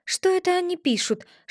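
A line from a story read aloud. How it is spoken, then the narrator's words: Whispered question. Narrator (Russian): шепотом спросила Алиса у Грифона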